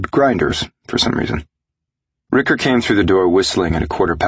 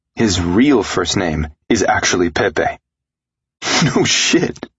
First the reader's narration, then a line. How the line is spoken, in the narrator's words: I laughed